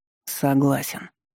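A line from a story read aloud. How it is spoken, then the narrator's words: Young man muttering through teeth. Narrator (Russian): процедил сквозь зубы молодой человек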